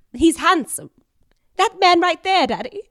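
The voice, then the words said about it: Old-time 1930s movie star voice. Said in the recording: “I also talk like an old movie star. ... movies from the 1930s and 40s. ... I spoke like”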